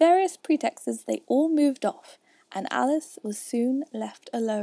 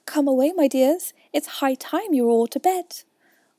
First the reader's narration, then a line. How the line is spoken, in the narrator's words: a canary called out in a trembling voice to its children